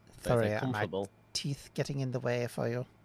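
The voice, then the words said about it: Weird put-on Scottish accent. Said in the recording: “the weird Scottish accent ... I affected the Warven accent ... this man spits a lot at me”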